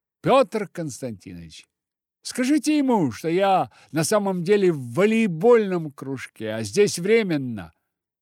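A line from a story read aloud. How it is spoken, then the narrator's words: Loud request. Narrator (Russian): громко попросила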